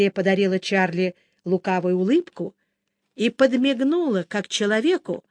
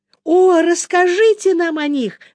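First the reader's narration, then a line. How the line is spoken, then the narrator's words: Exclamation. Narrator (Russian): воскликнула Эбби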